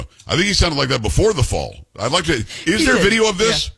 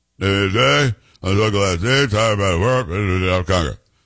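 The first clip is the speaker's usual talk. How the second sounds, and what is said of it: Mumbling Mitch McConnell impression. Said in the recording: “he was mumbling, which is what Mitch McConnell does ... I'm doing an impersonation. I'm doing Mitch McConnell.”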